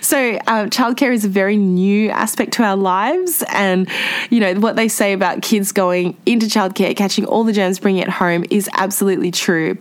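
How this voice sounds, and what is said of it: Congested voice from a cold. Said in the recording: “I don't know if you guys can hear, I've got a bit of a cold”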